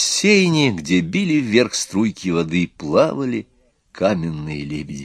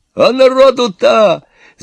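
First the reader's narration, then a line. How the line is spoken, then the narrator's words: Yelling. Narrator (Russian): заорал Иван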